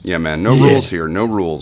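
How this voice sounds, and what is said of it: Put-on radio announcer voice. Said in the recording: “At your fucking radio voice ... I drop into it”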